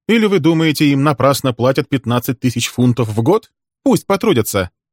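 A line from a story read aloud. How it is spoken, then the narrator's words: Laughing. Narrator (Russian): Он рассмеялся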